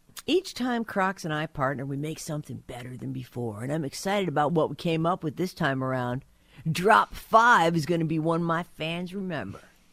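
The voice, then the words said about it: Imitates another person's voice. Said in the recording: “my Post Malone impersonation”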